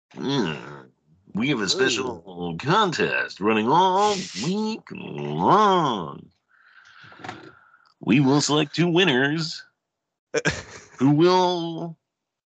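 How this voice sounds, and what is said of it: Radio announcer voice. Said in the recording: “my radio voice”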